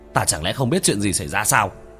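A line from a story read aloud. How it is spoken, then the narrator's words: Enraged yelling. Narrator (Vietnamese): Cố Bân trong lòng hỏa khí bừng bừng, trợn mắt la hét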